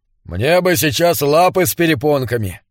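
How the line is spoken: Grumbling. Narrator (Russian): проворчал коп

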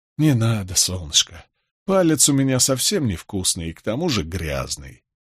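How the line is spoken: Affectionate. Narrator (Russian): ласково сказал я

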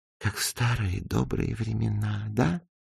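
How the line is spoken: Whispered. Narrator (Russian): прошептала она

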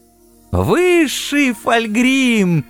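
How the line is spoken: Frantic wailing scream. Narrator (Russian): истошно завопил несчастный Векиль Нияз

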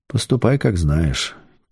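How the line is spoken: Quiet reply. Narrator (Russian): тихо ответил шеф

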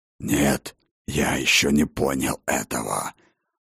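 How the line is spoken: Hoarse wheezing reply. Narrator (Russian): прохрипел в ответ Хрофт

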